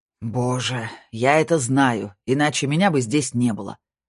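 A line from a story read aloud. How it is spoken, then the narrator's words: Sharp, curt. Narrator (Russian): резко бросил Снейдер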